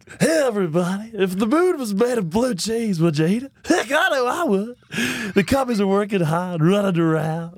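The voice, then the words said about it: Harry Caray impression via Will Ferrell. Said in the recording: “I did like the Harry Carey ... It's kind of like a Will Ferrell impression. Like, I'm doing impersonation of Will Ferrell's impersonation of Harry Carey”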